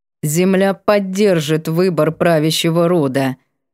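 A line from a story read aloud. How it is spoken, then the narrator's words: Reluctant, through clenched teeth. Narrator (Russian): нехотя процедил он сквозь зубы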